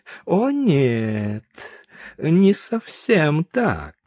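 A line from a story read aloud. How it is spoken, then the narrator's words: Insinuating interruption, general. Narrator (Russian): вкрадчивым голосом перебил генерал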